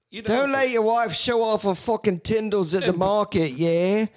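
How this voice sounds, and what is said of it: Confident, strong Aussie-Cockney put-on accent. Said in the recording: “say it just like that with the same confidence, the same strong, weirdly Aussie Cockneyan kind of accent. It's probably way off.”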